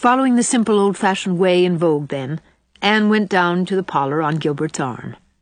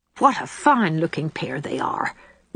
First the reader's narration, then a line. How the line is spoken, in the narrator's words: whispered the impressible Mrs